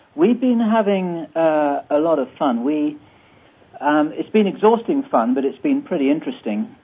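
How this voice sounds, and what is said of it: English accent. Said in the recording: “I'm the resident Englishman here, so I apologize to anyone who finds my accent rather weird... it's distinguished”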